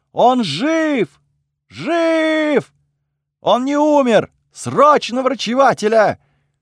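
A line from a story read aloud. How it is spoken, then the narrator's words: Shouting. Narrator (Russian): закричала кому-то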